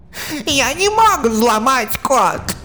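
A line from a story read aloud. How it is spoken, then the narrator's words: Yell. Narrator (Russian): Завопил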